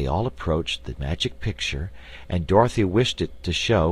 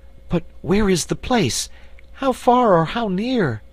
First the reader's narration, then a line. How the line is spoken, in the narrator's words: asked Cake anxiously